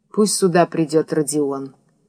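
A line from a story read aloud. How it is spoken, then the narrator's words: Breaks off, finishes quietly. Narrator (Russian): оборвался и тихо договорил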